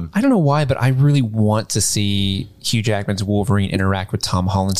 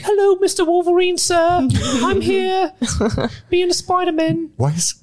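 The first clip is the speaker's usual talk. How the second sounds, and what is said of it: Imitates another person's voice, Dickensian. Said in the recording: “sounds like a character from a Charles Dickens novel? ... my impersonation of Tom Holland”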